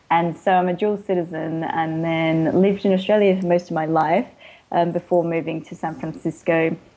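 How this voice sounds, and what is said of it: Hybrid English-Australian accent. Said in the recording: “you don't sound like you've lived in Southern California all your life ... there's an accent, and it's a hard one to pick up because it's a bit of a hybrid, because I was born in England and then moved to Australia”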